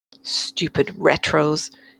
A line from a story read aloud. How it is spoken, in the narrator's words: Anne muttered, feeling more confident